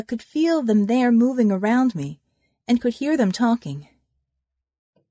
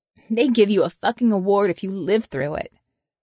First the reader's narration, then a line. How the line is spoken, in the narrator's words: laughed